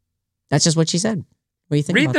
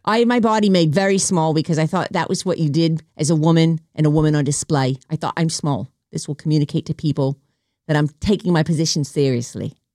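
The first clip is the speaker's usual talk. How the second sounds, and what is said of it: Put-on New Zealand accent. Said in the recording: “This is me doing like a Kiwi accent, I guess.”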